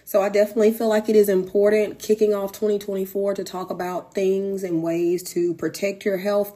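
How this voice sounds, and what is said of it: Hoarse voice. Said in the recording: “As you can kind of tell, I'm kind of hoarse when I actually recorded this episode.”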